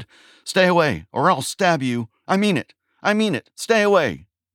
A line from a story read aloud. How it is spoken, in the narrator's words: the words she had just yelled at him